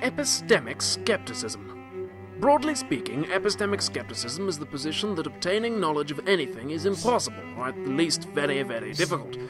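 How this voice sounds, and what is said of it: English accent. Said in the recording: “English accent.”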